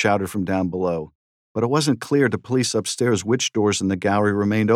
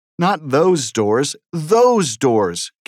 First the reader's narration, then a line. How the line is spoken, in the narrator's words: came another excited shout